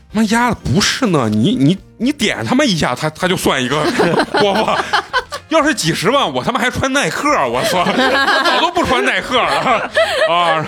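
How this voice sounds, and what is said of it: Put-on Beijing dialect. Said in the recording (Chinese): “用北京话说”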